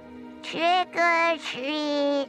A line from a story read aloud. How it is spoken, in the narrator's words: in that groan of a voice, she repeated